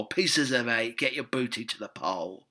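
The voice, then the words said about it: Pirate character voice. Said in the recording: “you could have a pirate version.”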